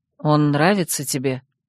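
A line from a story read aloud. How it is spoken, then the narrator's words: Strained, forced out. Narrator (Russian): сглотнув, с трудом выдавила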